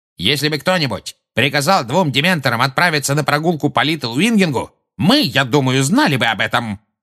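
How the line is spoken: Barking. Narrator (Russian): рявкнул Фадж

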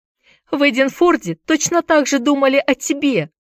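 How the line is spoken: Shouted reply. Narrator (Russian): закричала в ответ Дженни

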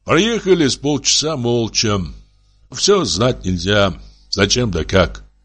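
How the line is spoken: Plain. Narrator (Russian): сказал старик

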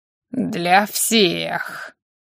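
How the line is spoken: Louder drawl, ghost. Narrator (Russian): Громче, чтобы любопытная малявка прониклась, протянул призрак

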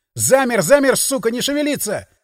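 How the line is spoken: Yelling. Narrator (Russian): заорал я

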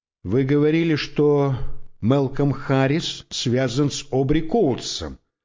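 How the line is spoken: Plain. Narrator (Russian): сказал я

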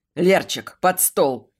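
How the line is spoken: Barked. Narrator (Russian): рявкнул Дэн

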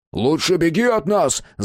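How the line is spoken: Yelled. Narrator (Russian): заорал Мэтт

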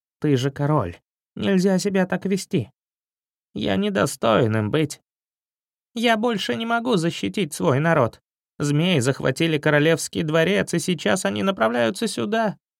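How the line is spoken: Sad mouse leader. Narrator (Russian): грустно проговорил предводитель мышей

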